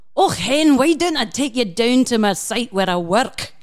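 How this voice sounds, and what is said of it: Put-on Scottish accent, pretty good. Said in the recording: “I'd like to apologise to any of our listeners who are Scottish ... It was wonderful. Accent ... It's beautiful. Pretty good.”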